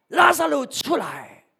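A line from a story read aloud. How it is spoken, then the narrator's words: Loud calling shout. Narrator (Chinese): 耶稣呢就大声的喊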